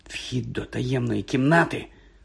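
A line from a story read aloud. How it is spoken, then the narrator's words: Hoarse croak. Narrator (Ukrainian): прохрипів він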